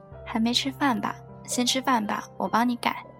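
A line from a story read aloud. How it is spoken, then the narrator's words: Soft. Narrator (Chinese): 轻声对我说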